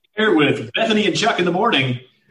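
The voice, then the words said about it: Radio announcer voice. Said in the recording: “Bring out the radio voice.”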